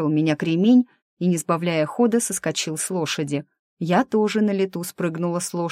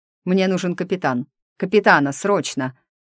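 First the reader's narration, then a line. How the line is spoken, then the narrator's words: Thunderous roar. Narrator (Russian): рыкнул Диего так, что его голос прокатился штормовой волной по палубе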